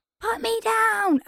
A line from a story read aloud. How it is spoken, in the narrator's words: I screamed